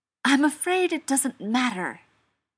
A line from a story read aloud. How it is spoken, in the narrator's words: Beckett snapped